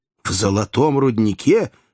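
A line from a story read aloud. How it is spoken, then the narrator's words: Two voices shouting together. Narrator (Russian): в один голос закричали Кеннеди и Джо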